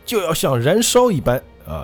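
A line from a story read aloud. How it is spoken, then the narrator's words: Sudden outburst shout. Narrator (Chinese): 他突然爆喊了一句说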